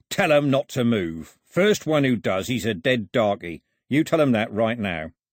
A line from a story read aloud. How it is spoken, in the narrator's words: growled